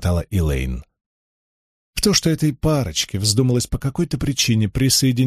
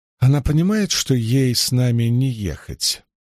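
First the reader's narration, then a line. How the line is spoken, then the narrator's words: Plain. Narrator (Russian): спросила Илэйн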